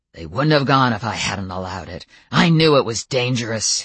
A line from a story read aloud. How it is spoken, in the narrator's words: he snarled, the anger back as quickly as it had gone